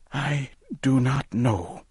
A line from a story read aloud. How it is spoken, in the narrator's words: Owen whispered